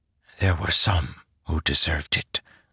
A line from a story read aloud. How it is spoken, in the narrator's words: Zeth whispered